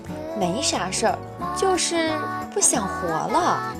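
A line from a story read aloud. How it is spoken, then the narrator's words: Soft gentle woman. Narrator (Chinese): 女柔声说道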